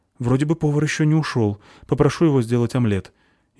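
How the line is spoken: Frightened answer. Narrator (Russian): испуганно ответил официант

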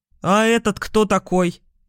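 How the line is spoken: Rude question. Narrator (Russian): Все так же грубо спросил смотритель

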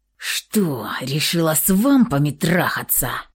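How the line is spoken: Vicious hiss. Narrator (Russian): прошипел он злобной змеюкой

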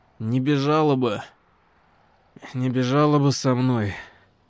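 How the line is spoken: Muffled reply. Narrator (Russian): глухо отозвался брюнет

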